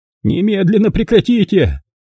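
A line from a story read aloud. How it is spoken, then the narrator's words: Frightened screaming. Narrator (Russian): завопила жертва, испуганно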